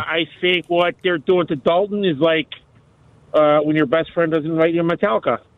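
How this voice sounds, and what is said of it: Exaggerated put-on accent. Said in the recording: “You could tell from the accent that it was a bit.”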